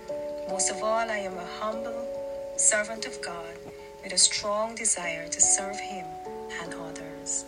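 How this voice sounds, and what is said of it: Caribbean Guyanese Barbadian American accent. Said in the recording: “I am a Caribbean American, Guyanese, Barbadian, and American. So please don't be alarmed with my various accents.”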